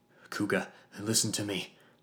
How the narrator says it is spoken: I panted

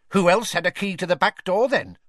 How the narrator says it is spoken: barked the cook

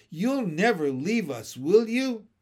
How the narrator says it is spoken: he cried

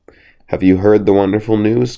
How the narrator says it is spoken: cried the fox in a very joyful and excited manner

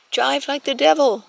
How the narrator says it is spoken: shouted

